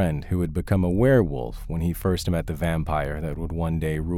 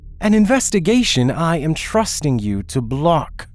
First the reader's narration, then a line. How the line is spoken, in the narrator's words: Christian snapped